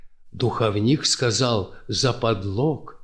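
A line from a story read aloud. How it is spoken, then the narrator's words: Whisper in ear. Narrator (Russian): прошептал Овцину на ухо Ушаков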